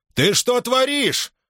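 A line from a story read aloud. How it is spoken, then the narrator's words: Distant shout. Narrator (Russian): крикнул издалека Павловски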